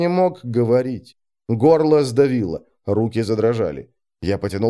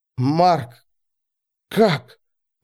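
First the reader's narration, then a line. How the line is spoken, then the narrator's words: Breathless, strained. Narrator (Russian): выдавил задыхаясь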